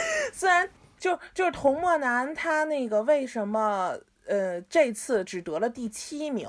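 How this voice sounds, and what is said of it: Usual voice. Nothing is said of it.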